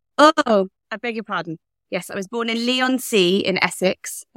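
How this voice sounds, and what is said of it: English accent. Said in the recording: “Obviously, you're English. I can tell from the accent.”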